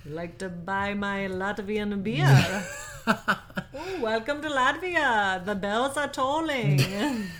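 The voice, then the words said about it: Put-on Latvian accent. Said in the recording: “I don't have any idea what a Latvian accent would be. ... Nailed it. Nailed it.”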